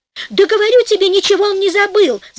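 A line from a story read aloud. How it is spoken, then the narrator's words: Shouting. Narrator (Russian): закричала жена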